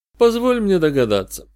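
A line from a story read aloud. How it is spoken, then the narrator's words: Weary. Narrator (Russian): устало предложил я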